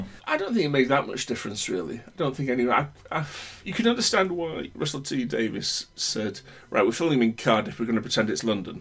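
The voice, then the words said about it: Broad northern English accent. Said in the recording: “a far broader northern accent of mine ... the vowels are much flatter, it's a much slower thing”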